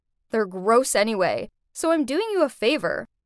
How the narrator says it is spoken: she snorted and said

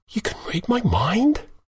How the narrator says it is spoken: I whispered

